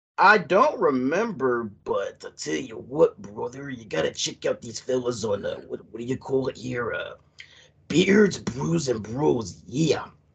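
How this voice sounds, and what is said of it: Wrestler impersonation voice. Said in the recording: “did a Dusty Rhodes impersonation ... wrestler impersonations”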